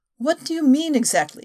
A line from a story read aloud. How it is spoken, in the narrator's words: asked anxiously